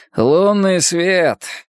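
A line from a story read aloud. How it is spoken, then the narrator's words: Sigh. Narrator (Russian): вздохнул Халворсон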